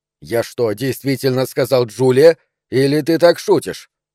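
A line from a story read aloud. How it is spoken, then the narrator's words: Sharp question. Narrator (Russian): спросил я довольно резко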